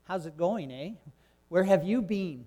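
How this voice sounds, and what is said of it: Imitated Toronto Canadian accent. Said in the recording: “like a Toronto accent”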